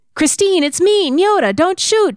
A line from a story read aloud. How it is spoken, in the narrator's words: yelled